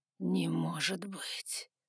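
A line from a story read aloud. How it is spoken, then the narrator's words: Mutter. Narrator (Russian): пробормотал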